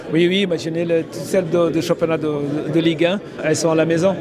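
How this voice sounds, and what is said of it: Nice foreign accent in French. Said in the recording (French): “Sonny Anderson et son bel accent.”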